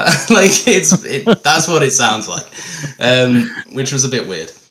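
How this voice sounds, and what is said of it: Usual voice. Nothing is said of it.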